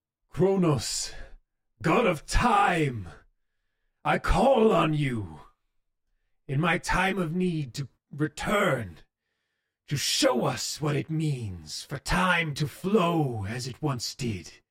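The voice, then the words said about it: Booming, artificially loud character voice. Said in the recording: “in a booming voice ... It sounds weird. It sounds very, like, artificially loud.”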